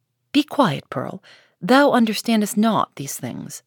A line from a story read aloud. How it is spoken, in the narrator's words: said her mother